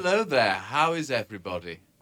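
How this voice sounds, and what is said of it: Exaggerated English accent. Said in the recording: “Was that your trying to be Canadian accent? ... That was my very English accent. ... I don't actually sound like that. Oh, I kind of do.”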